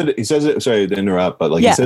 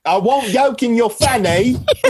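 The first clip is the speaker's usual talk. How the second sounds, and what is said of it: Put-on British accent. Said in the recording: “he says it's a British accent.”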